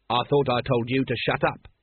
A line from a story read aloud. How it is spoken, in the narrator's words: snapped Vimes